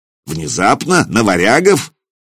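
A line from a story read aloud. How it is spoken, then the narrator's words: Skeptical snort. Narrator (Russian): Нурман хмыкнул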